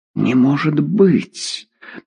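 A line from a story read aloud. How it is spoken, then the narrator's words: Whisper. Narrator (Russian): прошептала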